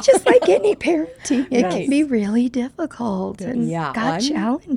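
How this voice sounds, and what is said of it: Squeaky, lost voice. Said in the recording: “has lost her voice ... with my squeaky voice. ... With your squeaky voice.”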